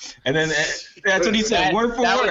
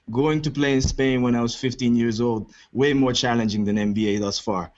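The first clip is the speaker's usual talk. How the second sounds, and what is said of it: Badly done put-on accent. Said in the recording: “That was the worst Porzingis accent”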